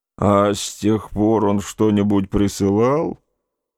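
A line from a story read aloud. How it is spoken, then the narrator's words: Grumbling. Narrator (Russian): проворчал дядя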